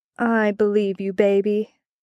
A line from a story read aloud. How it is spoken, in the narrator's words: Adam purred